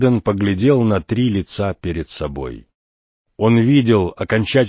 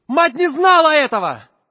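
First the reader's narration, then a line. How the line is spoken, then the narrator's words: Shout, then louder shout. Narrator (Russian): крикнул Филипп, потом спохватился и закричал еще громче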